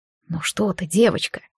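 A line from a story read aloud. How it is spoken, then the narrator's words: Whispered right into ear. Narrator (Russian): прошептал в самое ухо Монтрос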